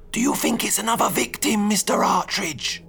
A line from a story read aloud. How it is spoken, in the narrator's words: hissed Turtle